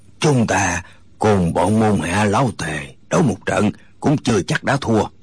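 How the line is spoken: Hoarse, defiant. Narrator (Vietnamese): Người nói tiếng khàn khàn dường như không phục, gã nói

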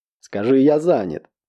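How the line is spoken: Barked. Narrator (Russian): рявкнул он

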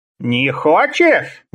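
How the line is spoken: Menacing. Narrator (Russian): грозно насупился Лавкач

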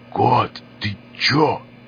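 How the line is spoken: Loud whisper. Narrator (Russian): Громким шепотом начал было Хоббит

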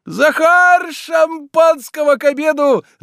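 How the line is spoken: Shouted. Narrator (Russian): закричал он

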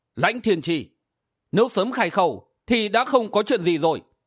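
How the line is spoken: Smiling. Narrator (Vietnamese): Hắc y nhân bịt mặt mỉm cười nói

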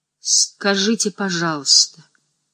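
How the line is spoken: Hesitant. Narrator (Russian): начала она неуверенно

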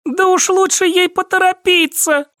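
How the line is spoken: Pale pleading. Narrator (Russian): взмолилась бледная Катя

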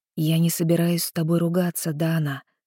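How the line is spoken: Quiet, telepathic voice. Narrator (Russian): тихо сказал Итан в моей голове

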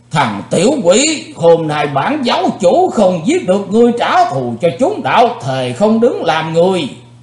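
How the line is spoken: Loud roar. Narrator (Vietnamese): âm ma giáo chủ đã gầm to lên

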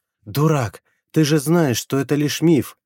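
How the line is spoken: Muffled moan. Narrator (Russian): Закрыв лицо руками, простонала она

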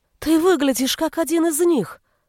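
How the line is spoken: Exclaimed. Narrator (Russian): воскликнула

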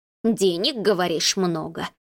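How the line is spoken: Muttered grumbling. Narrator (Russian): ворчала она себе под нос

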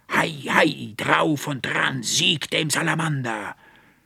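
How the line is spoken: Booming voice filling room. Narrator (German): dröhnte die Stimme des Archivarius durch das Zimmer

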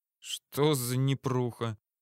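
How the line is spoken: Muttering. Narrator (Russian): Пробормотал я

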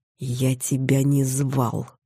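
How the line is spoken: Through gritted teeth, cat. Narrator (Russian): процедил котик сквозь зубы

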